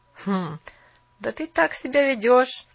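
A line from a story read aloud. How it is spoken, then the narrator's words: Laughing boy. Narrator (Russian): Паренек засмеялся опять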